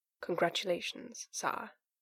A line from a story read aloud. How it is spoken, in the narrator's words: Gaius said, more quietly, with a considered look